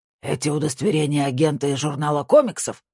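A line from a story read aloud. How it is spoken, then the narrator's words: Growl. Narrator (Russian): прорычал Хантке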